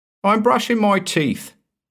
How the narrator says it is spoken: shouted, thinking nothing of it

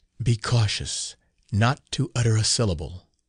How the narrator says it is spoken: whispered the stranger

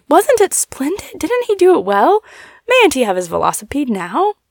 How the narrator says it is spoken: saying eagerly

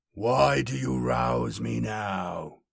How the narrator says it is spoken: he growled

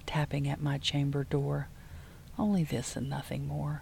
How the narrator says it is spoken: I muttered

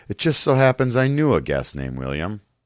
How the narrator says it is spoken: Man in Black kind of chuckles and says

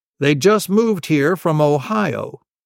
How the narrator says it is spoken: said our principal

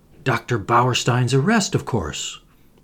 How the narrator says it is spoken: I answered impatiently

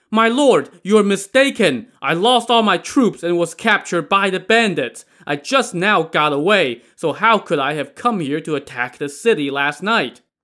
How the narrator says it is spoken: Qin Ming was dumbfounded and shouted back

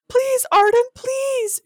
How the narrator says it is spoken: pleaded

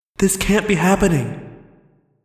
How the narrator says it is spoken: I cried to no one

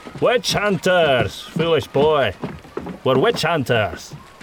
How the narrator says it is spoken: Tormgard said in a loud voice

